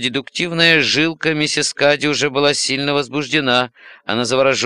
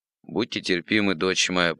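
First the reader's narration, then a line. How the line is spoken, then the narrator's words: Mumbling. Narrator (Russian): пробормотал отец Журден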